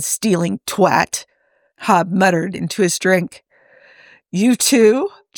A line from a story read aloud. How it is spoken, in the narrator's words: Joe asked with a bark of laughter